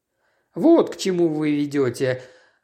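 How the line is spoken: Sighing. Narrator (Russian): вздохнул Джеб

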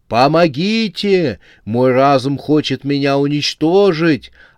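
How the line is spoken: Frantic screaming. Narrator (Russian): орал главный люминат

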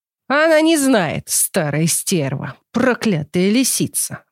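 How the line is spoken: Growling old man. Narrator (Russian): зарычал дед

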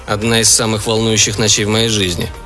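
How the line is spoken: Grumbling. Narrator (Russian): проворчал Билл

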